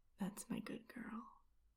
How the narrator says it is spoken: You whisper in my ear

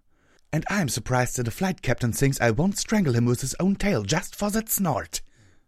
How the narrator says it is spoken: Night Kanter hissed

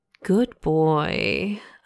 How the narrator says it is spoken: I murmured in his ear

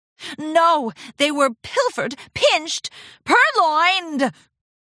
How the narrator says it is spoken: Rarity yelped

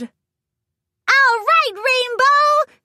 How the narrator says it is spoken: Pinkie Pie squealed, jumping up and down

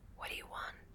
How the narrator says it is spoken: to whisper in his ear

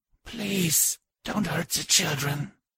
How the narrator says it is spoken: she whispered softly

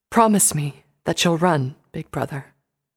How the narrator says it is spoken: Luna said softly

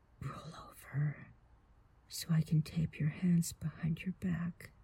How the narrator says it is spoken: I whispered in your ear

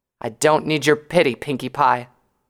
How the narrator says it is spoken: she growled

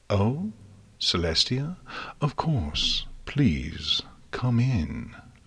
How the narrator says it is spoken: Luna purred

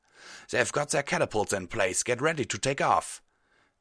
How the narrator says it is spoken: Tailwind barked

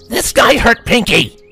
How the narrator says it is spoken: Rainbow shouted

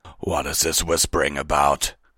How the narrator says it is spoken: Fenrir growled

